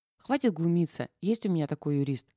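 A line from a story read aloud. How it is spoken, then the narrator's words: Calm. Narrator (Russian): спокойно продолжила Дашка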